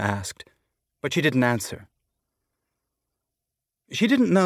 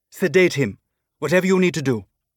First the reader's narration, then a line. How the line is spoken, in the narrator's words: Elvie said